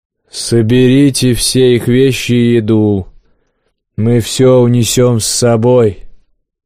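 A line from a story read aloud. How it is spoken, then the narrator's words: Boomed. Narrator (Russian): прогудел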